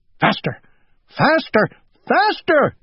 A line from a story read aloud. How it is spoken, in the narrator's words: cried Owl